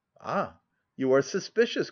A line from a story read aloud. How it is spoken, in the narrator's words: cried she, smiling with a gleam of hope